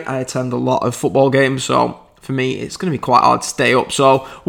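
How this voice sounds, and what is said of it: British accent. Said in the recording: “as you can tell from my voice, I'm from the UK”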